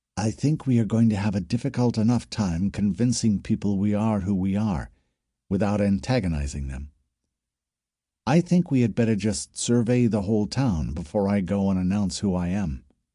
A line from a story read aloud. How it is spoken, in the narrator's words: said quietly to Cliffwatcher